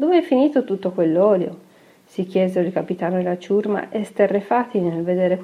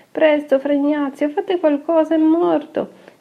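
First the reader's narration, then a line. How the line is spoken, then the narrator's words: Young men exclaiming together. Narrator (Italian): esclamarono i giovani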